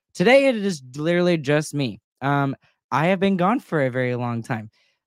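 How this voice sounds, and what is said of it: Voice sounds a little off, sick. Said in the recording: “I've also been just fighting a little bit of a cold ... I sound a little weird ... that's why I kind of sound that way”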